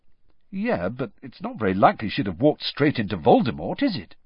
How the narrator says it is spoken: said Harry

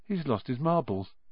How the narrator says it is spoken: Ron muttered in Harry's ear

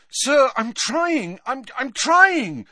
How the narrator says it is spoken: said Harry desperately

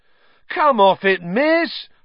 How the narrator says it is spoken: howled

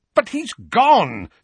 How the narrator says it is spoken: said Uncle Vernon, impatiently

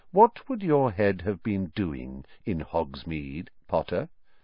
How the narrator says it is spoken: said Snape softly

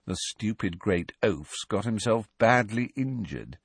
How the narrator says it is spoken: said Malfoy in an undertone, so that only Harry could hear him

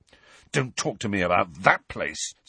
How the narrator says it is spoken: said Harry fiercely

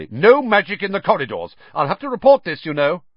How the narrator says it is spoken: said Percy loudly

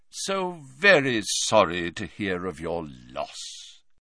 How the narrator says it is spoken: he said in a deep, grave voice

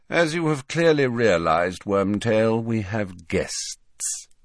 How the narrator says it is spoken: said Snape, lazily

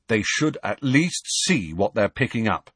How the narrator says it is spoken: he said firmly

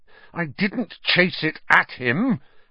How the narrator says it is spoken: Harry said, his voice shaking with anger

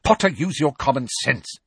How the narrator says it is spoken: snapped Professor McGonagall, with an abrupt return to her usual manner

